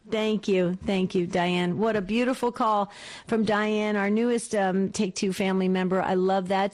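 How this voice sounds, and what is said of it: Slight back east New Jersey accent. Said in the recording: “I was born and raised in New Jersey ... Northern New Jersey. That's where I'm from ... You probably picked up a little of my back east accent”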